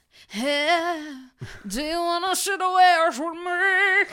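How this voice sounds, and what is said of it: Imitates another person's voice. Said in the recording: “That was my share impression.”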